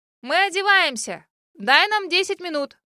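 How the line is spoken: Shout. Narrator (Russian): Крикнула я

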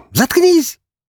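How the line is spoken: Genuine bark. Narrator (Russian): натурально рявкнула она на меня

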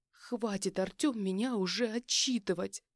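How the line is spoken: Snapping, plaintive and hurt. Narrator (Russian): Огрызнулась она, как жалобно и обиженно звучал ее голос

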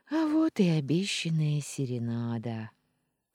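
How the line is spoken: Quiet laugh. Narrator (Russian): Тихо рассмеялась я

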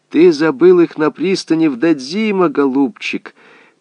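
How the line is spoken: Drunk old woman's mocking cackle. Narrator (Russian): Пьяная и безобразная старуха ... вдруг начала хохотать, издеваясь над ним

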